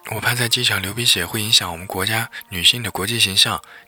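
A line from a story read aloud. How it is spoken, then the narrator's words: Muffled, mumbling, earnest. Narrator (Chinese): 许东东拿纸堵住自己的鼻子，咕咕哝哝又一本正经地说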